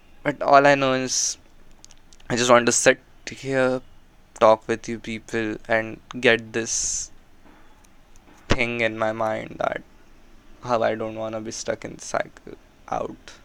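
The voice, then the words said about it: Speaks with an unusual accent. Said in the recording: “Ignore my weird accent as well.”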